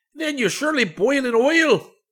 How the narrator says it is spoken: shouted the bandit, scowling fearfully

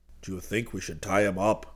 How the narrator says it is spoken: Geronimo whispered

